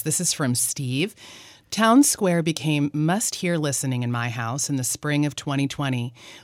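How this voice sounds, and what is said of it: Clear, deliberate teacher-style reading voice. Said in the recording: “in my teacher voice”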